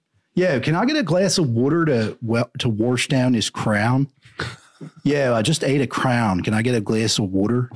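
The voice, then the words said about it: Put-on Philadelphia accent. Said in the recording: “It's a weird accent in Philly. I can't really do it.”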